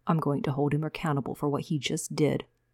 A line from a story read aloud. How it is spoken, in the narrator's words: Javen said quietly